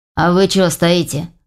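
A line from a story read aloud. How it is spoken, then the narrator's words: Defiant question. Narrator (Russian): вызывающим тоном поинтересовался Егор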